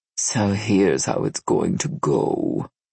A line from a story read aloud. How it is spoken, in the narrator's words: he purred